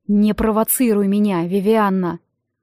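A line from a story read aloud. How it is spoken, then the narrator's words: Hoarse rasp, up close. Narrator (Russian): Прохрипел он мне в лицо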